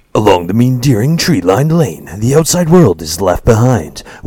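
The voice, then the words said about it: Put-on different reading voice. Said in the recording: “I gotta do a different voice.”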